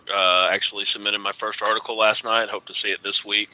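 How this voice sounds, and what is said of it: Texas accent. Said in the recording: “Can tell from my Texas accent”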